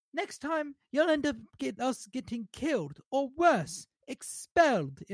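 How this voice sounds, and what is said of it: Deliberately bad British accent. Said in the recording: “in my awful British accent.”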